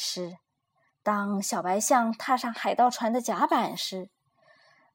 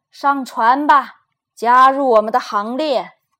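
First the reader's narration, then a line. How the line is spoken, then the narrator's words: Roaring captain. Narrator (Chinese): 贝尔迪船长吼道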